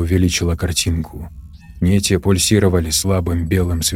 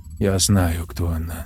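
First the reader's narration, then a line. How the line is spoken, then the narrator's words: Calm. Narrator (Russian): спокойно сказала Тори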